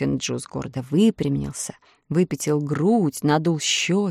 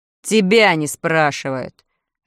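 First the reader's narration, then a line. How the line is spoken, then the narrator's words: Bark. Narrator (Russian): рявкнул Урфин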